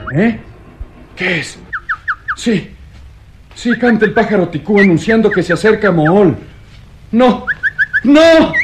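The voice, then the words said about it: Terrified, anguished shouting. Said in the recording (Spanish): “aquellos gritos, mitad de angustia y mitad de terror”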